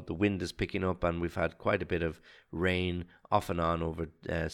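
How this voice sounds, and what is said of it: Voice sounds slightly off from a cold. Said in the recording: “I'm a little bit of a cold ... my voice sounds a little bit uh, different than it usually does”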